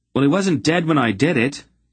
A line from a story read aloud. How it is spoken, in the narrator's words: Garion shouted at her